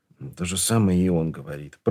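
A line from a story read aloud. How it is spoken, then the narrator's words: Mutter. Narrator (Russian): пробормотал Ваймс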